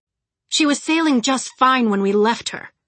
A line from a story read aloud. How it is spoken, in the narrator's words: Pisces said smoothly